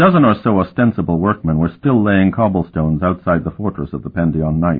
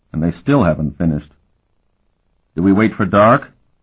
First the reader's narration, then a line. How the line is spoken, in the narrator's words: Hurek muttered